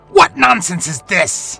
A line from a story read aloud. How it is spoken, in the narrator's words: The hideous beast spat